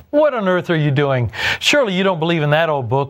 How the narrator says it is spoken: jeered

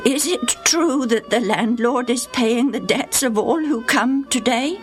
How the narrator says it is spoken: In quavering tones, he asked

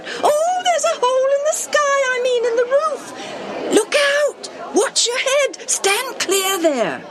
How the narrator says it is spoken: They squealed, called out

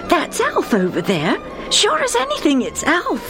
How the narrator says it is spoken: said excitedly

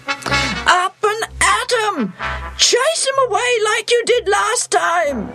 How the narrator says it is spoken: he yells

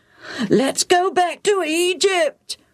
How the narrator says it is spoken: the crowds wailed

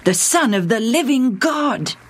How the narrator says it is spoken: he exclaimed

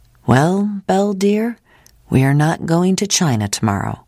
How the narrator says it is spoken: John said

